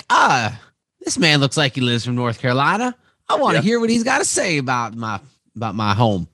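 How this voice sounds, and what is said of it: Put-on southern accent. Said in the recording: “I try to do a southern accent ... I just tried throwing a southern accent”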